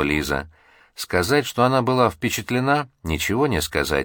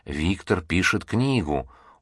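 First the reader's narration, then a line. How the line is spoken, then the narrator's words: Confidential whisper. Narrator (Russian): Он наклонился к девушке и доверительным шепотом произнес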